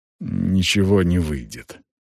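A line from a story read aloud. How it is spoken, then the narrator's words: Deep sigh, then speaking. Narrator (Russian): Он глубоко вздохнул и сказал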